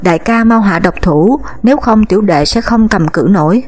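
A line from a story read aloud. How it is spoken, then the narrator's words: Terrified scream. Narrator (Vietnamese): Mộc Kính Thanh không còn đường tránh né, sợ hãi thét lên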